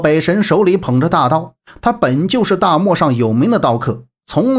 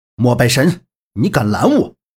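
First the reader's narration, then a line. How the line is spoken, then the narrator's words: Stern demand. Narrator (Chinese): 萧平浪厉声质问道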